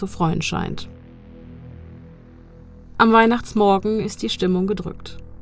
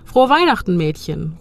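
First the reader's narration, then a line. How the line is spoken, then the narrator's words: Calling out. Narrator (German): ruft er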